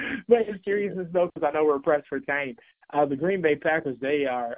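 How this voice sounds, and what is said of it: Usual voice. Nothing is said of it.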